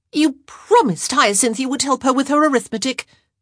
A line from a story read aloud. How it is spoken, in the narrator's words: Eloise blurted out